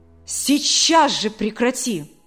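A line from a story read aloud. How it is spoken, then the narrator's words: Threatening exclamation. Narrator (Russian): С угрозой в голосе воскликнул Александр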